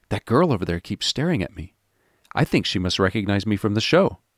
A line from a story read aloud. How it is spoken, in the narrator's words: Attempting to look indifferent, whispered